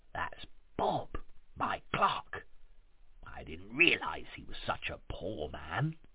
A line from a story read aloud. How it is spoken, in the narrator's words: said Scrooge, whispering